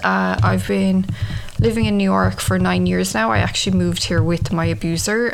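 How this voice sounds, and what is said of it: Irish accent. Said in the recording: “I'm from Ireland, if you can tell from the accent.”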